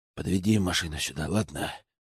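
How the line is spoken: Hoarse wheeze. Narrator (Russian): Просипел я

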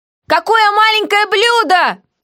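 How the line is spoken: Sudden yell. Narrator (Russian): тут же заорала я

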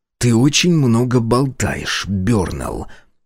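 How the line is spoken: Through clenched teeth. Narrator (Russian): процедил я сквозь сжатые челюсти

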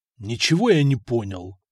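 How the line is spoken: Angry. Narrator (Russian): зло ответил он

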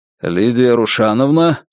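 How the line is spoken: Deep bass voice. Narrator (Russian): пробасил он

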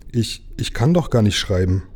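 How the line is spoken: Startled cry. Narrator (German): rief Jim ganz erschrocken

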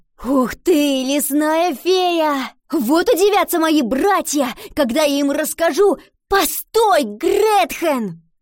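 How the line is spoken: Shouted. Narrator (Russian): крикнула Ива

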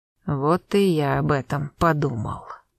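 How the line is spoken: Slow mutter. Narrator (Russian): медленно пробормотал Смоловой

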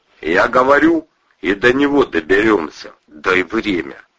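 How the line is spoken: Muttered agreement. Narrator (Russian): выразил согласие бормотанием

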